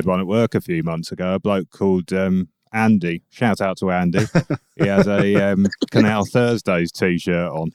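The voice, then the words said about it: Smooth, recognisable radio voice. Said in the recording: “You've got quite a recognisable voice. Smooth radio voice. ... John Peel-esque, in my opinion.”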